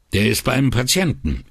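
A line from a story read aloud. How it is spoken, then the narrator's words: Sharp retort. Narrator (German): entgegnete scharf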